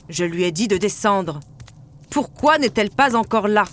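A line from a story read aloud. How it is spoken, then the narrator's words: Shouting. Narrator (French): criait-il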